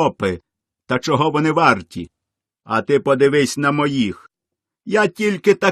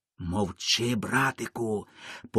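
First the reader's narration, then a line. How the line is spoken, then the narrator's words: Whispering lion. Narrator (Ukrainian): пошепки говорить до нього лев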